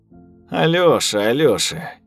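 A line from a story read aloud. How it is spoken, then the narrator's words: Snide reply. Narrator (Russian): ехидно ответила Рута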